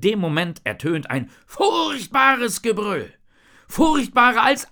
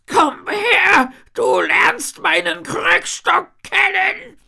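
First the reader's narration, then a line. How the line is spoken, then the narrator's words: Old woman hissing. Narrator (German): faucht die alte Dame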